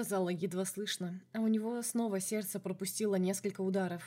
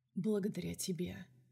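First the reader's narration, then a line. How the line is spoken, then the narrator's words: Quiet. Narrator (Russian): сказал так же тихо, как и она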